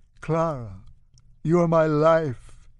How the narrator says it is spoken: he moans hollowly

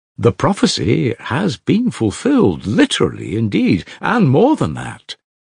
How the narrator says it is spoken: exclaimed Madame Hochlakov enthusiastically

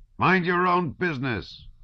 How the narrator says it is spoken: an old sergeant shouted at them

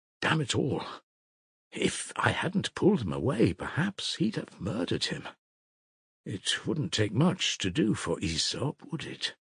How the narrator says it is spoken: whispered Ivan to Alyosha

